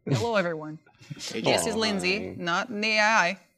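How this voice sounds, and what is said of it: Robotic computer-like voice. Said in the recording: “talking like a computer”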